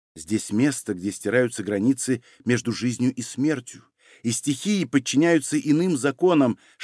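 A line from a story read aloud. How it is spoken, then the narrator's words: Whispering in ear. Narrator (Russian): шептала она ему на ухо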